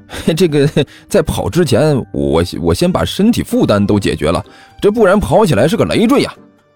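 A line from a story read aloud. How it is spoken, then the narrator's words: Awkward dry laugh. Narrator (Chinese): 甘球干笑着说道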